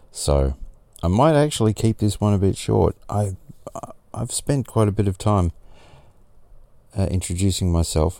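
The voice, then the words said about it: Tired-sounding voice. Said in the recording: “I sound tired, I probably am”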